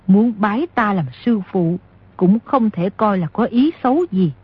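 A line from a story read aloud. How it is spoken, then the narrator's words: Smiling. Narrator (Vietnamese): Nico áo trắng mỉm cười nói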